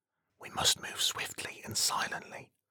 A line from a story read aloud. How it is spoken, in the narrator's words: Troy whispers to Thomas